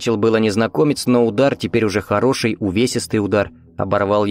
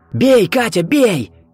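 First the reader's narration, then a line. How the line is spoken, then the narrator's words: Shouted. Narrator (Russian): крикнул Виктор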